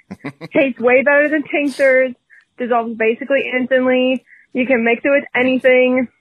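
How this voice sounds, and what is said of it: Minnesota accent. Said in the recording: “I love her accent. ... I love a Minnesota accent.”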